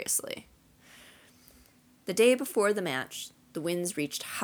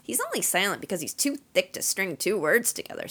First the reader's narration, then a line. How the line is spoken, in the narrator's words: said Fred impatiently